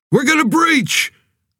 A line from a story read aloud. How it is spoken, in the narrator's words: The shout came from behind him